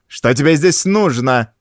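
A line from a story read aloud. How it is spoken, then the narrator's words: Sharp-voiced question. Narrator (Russian): спросила фрау Штейн резким голосом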